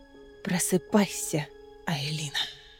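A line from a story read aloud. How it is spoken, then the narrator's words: Whisper. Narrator (Russian): прошептал голос Маевы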